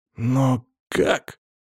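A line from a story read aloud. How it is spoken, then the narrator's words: Astonished exclamation. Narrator (Russian): изумленно воскликнул пришедший в себя Тахир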